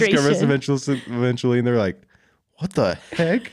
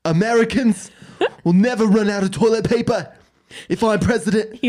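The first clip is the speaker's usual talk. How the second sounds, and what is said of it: Imitates another person's voice. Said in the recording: “Say that in your Bernie Sanders voice.”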